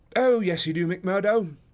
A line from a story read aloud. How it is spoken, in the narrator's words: cried Sherlock Holmes genially